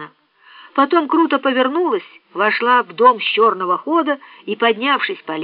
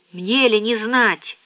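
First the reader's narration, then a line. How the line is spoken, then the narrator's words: Dry. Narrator (Russian): сухо сказала Касси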